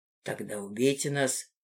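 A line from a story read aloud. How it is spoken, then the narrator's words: Calm. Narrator (Russian): спокойно отозвался Гидеон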